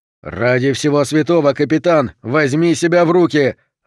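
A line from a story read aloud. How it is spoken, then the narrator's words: Yelling. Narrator (Russian): заорал он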